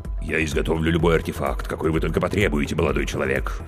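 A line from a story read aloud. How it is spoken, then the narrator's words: Deep bass voice. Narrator (Russian): пробасила трагедия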